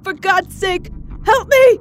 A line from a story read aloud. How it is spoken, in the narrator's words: Mac screamed